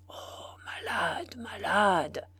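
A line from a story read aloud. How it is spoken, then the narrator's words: Sly murmur. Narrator (French): murmura Nanny de son air fin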